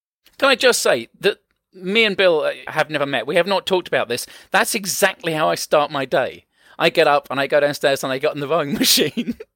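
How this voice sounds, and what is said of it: French accent in English. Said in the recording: “You're like English me. You're English, right? ... No, French. ... Oh, I couldn't put my finger on the accent.”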